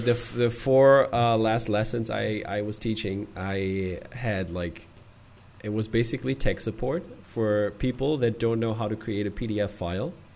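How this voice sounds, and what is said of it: Hoarse, nearly lost voice. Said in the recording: “you can hear my voice is almost gone”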